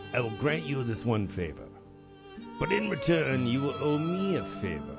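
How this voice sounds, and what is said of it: Poor imitation of a character voice. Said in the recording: “That was a terrible impression.”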